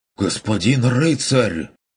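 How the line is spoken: Indignant, stunned gasp. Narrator (Russian): Возмущенно и ошеломленно ахнул Феликс

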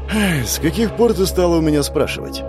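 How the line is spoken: Sigh. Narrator (Russian): вздохнул он

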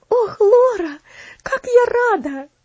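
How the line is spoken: Joyful exclamation. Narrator (Russian): радостно воскликнула Элси

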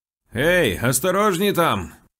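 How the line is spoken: Shouting after someone. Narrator (Russian): крикнул он вслед

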